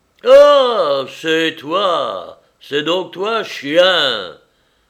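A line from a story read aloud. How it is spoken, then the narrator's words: Sudden exclamation. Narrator (French): s'écria tout à coup l'homme qui tenait la barre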